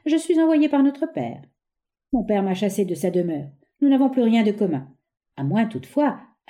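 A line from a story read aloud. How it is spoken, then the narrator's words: Softened tone. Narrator (French): ajouta-t-il d'un ton radouci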